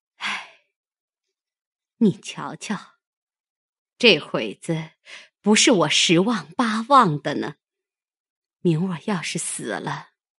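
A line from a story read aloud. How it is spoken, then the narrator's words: Long sigh. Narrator (Chinese): 凤姐 长叹一声，说道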